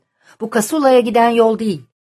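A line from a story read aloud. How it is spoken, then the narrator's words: Loud and firm. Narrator (Turkish): dedi Gojmir yüksek sesle ve kararlı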